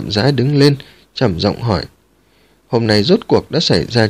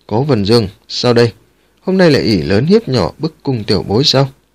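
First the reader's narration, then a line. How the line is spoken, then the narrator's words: Cold. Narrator (Vietnamese): Tào Quốc Phong lạnh lùng nói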